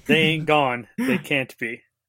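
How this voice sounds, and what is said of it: Exaggerated, unintelligible Southern US accent. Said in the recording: “literal gibberish. I didn't understand a word ... I see my accent has improved ... Unintelligible ... You can't do that to people who live in the South.”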